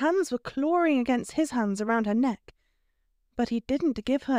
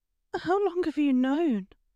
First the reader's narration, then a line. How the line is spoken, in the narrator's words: asked, her voice raw with emotion